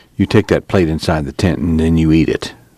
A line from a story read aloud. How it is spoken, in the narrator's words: Tom said quietly